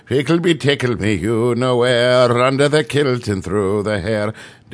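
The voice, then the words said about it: Put-on Irish accent, singsong. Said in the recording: “my Irish impression”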